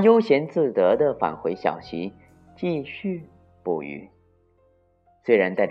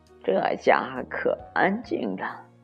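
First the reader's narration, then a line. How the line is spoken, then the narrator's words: Quiet muttering. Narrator (Chinese): 鹿小声嘀咕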